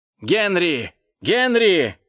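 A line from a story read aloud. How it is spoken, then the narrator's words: Shout, doctor. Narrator (Russian): закричал доктор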